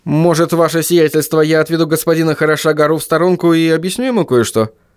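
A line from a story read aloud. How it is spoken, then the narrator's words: Quick suggestion. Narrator (Russian): быстро предложил он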